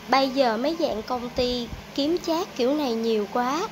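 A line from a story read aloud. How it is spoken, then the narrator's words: Sighing. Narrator (Vietnamese): Mọi người thở dài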